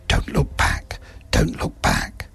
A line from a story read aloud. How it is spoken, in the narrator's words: mumbled under his breath